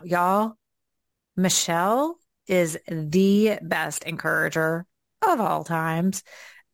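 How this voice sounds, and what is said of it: Southern American accent. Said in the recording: “here comes out my southern accent right now”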